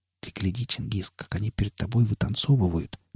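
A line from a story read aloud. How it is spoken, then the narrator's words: Whisper. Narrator (Russian): прошептал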